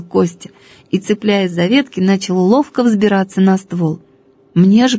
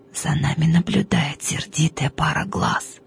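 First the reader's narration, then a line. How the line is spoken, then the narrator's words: Quiet whisper. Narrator (Russian): тихо произнес шепотом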